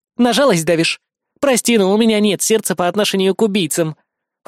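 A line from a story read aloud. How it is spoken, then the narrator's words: Cold. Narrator (Russian): холодно произнесла Кри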